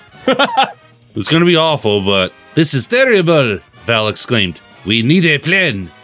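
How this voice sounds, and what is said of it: Put-on French accent. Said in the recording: “I'm debating whether or not to do a French accent here. ... She's just Maurice Chevalier.”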